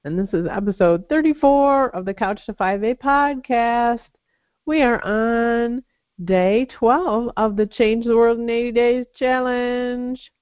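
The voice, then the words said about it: Congested, stuffy-nosed voice. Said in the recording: “You can tell by my voice I still have my head cold.”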